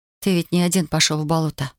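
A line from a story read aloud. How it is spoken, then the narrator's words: With a deep sigh. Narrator (Russian): выговорила она, глубоко вздохнув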